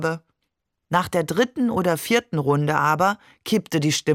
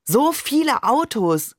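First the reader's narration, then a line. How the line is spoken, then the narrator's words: Called out. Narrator (German): rief ich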